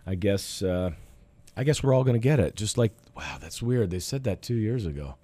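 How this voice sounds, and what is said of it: Voice not in good shape. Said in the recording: “my voice is not that great. This is the residual of my battle with corona over the past week.”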